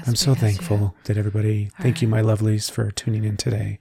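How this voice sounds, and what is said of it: Mock spiritual guru voice. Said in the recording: “Are you going to do the voice? ... You didn't talk like this. ... spiritually enlightened bullshit”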